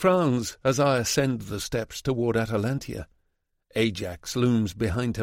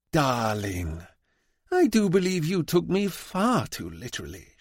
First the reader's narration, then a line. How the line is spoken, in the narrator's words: she says with a sexual sigh